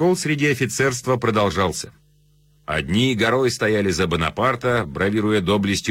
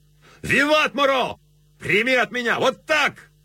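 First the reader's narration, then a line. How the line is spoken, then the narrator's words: Excited shouting. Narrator (Russian): Офицеры Рейнской армии кричали в азарте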